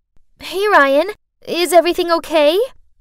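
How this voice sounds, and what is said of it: Sweet voice. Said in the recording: “in a sweet voice”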